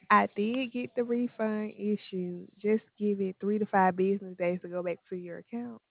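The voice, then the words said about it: Southern US accent. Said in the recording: “I can tell by the accent, though. ... It's Southern.”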